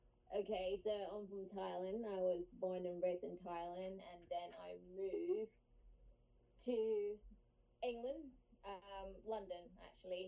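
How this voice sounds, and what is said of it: Distinct non-American foreign accent. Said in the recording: “you have a really distinct accent ... Not Georgia ... Decidedly not Georgia”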